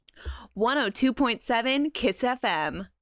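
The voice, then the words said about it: Fun, spunky radio tagline voice. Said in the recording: “you're secretly the voice that has all that says all the taglines for Kiss FM. You guys literally sound so alike ... Like in a fun, spunky voice ... you're doing this for the radio voice.”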